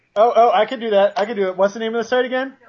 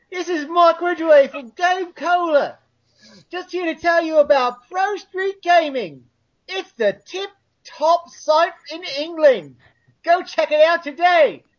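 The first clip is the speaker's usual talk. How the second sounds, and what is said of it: Put-on cockney chimney sweep accent. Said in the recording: “that chimney sweep accent”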